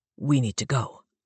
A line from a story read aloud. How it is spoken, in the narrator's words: Ephraim says, the tone of his voice brooking no argument